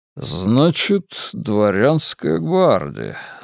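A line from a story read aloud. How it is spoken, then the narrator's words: Thoughtful drawl. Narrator (Russian): задумчиво протянул генерал Солжников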